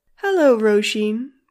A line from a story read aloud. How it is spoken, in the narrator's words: purred the mother